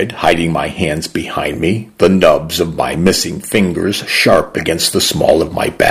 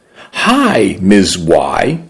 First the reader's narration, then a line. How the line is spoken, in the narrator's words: he said brightly